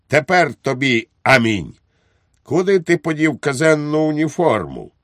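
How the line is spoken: Triumphant exclamation. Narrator (Ukrainian): Підпоручник Дуб вигукнув з тріумфом

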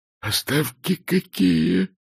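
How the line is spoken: Whisper. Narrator (Russian): прошептал он

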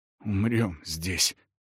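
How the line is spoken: Muttered again. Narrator (Russian): вновь пробормотал он

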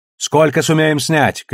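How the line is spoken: Shouted question. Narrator (Russian): крикнула Наоми

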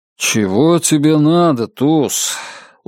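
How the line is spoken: Tired. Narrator (Russian): Устало проговорил Нат Коупленд

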